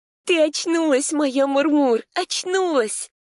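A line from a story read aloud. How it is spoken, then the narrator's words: Tearful. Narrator (Russian): Она говорила сквозь слезы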